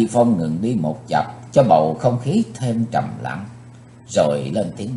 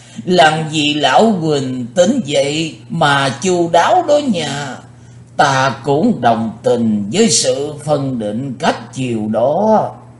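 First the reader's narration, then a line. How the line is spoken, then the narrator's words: Loud laughing. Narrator (Vietnamese): Lão quái ngư cười to như vừa tỉnh rượu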